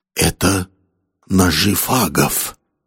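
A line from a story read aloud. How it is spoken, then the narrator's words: Frightened whisper. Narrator (Russian): испуганно прошептал Корвелл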